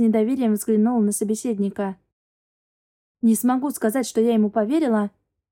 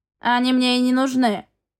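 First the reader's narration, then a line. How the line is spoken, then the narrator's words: Gruff growl. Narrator (Russian): рыкнул коротышка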